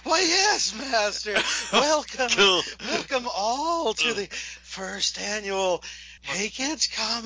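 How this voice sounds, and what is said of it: Igor-style hunchback servant voice. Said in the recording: “do the Igor voice... the Igor voice... take us in with the Igor voice”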